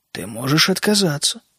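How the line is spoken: King speaking calmly. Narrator (Russian): спокойно заметил король

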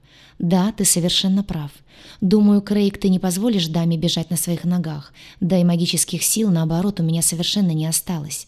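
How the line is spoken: Sly sighing. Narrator (Russian): вздохнула с лукавой улыбкой

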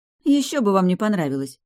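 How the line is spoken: Wry snort. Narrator (Russian): хмыкнула

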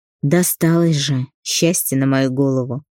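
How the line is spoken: Heavy sigh. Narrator (Russian): Тяжело вздохнул

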